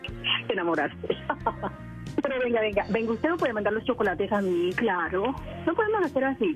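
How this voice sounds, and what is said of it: Regional Spanish accent. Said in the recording (Spanish): “con ese acento de voz que tienes”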